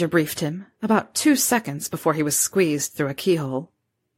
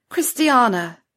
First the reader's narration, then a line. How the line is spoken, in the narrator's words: Wendelin cried